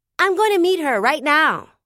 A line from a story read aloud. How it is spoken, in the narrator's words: I shouted